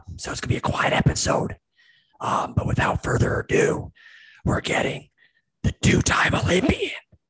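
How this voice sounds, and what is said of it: Whispering. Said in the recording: “I'm whispering right now ... I don't want to talk too loud”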